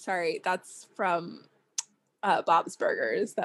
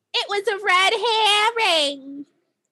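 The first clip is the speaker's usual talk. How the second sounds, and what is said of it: Bad cartoon character impression. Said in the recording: “That was a really bad impression of the mom from Bob's Burgers.”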